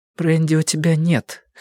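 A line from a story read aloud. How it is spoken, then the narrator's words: Hoarse remark. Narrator (Russian): хрипловато заметила Робин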